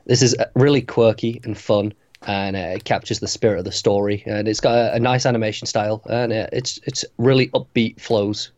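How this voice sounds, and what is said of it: Strained, fading hoarse voice. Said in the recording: “losing my voice a little bit here as I'm talking, I don't know if you can tell”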